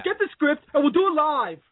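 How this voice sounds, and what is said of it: Bill O'Reilly impression. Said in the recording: “Bill O'Reilly. ... It was good. It was a good imitation”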